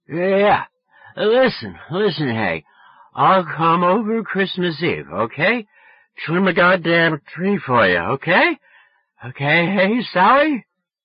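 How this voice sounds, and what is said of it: Drunken, slurred, shouting voice. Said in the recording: “Stop screaming. Are you drunk? ... Yes, you're drunk.”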